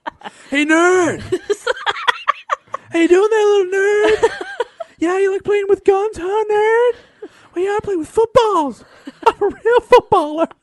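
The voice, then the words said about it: Mocking jock voice rising higher. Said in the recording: “my voice keeps getting higher. My voice is getting higher and higher ... weird helium”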